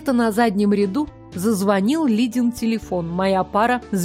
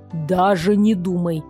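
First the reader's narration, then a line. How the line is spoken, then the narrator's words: Through gritted teeth. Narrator (Russian): процедил я сквозь зубы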